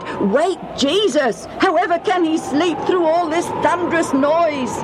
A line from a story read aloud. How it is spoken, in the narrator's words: one of them shouted